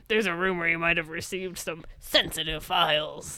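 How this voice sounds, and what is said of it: Imitates a character's voice. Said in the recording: “my Skinner impression”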